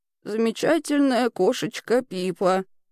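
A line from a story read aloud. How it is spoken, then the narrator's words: Very sad. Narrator (Russian): сказала бабушка очень печально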